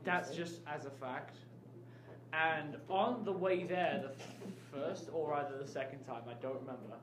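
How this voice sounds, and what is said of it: English accent. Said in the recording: “if you can't already tell by the accent, I am from England.”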